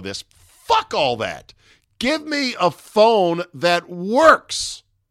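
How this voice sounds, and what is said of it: Screaming, riled-up shouting. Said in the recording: “I'm screaming now. I'm going to calm down.”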